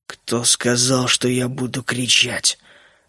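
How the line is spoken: Mumble. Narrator (Russian): пробормотал Генри, впервые подавая голос

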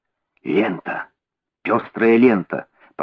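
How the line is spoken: Whispered. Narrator (Russian): прошептал Холмс

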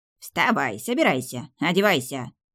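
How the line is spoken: Creaky, nasty voice. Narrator (Russian): скрипела она противным голосом

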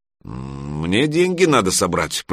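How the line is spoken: Grumbled. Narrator (Russian): проворчал Гриша

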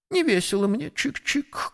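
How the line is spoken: Sad. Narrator (Russian): грустно сказал воробей

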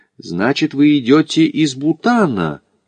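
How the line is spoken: Astonished exclamation. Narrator (Russian): изумленно воскликнул смотритель Дзонга

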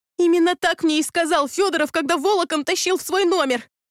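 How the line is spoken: Shouting, sobbing woman. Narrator (Russian): крикнула я и снова разревелась

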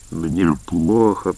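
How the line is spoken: Old man groaning. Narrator (Russian): простонал старик

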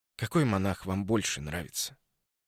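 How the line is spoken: Insinuating question. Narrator (Russian): спросил ее вкрадчиво

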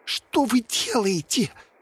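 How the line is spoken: Hiss. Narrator (Russian): прошипел Волде

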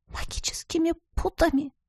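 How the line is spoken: Barely audible whisper. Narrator (Russian): прошептала еле слышно

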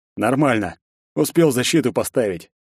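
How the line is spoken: Grunting wryly. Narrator (Russian): и хмыкнул

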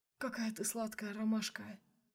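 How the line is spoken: Whisper. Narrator (Russian): шептал Сергей

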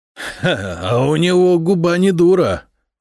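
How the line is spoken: Loud laughter. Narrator (Russian): захохотал Самослав

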